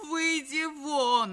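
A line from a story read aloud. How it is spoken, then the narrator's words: Frantic scream. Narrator (Russian): истошно закричала Мадлен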